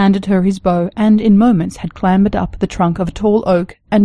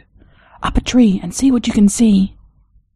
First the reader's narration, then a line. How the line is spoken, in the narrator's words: she whispered